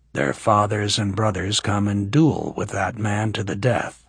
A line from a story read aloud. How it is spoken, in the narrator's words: Justin said grimly